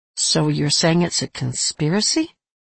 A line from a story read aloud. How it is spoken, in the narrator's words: I asked gently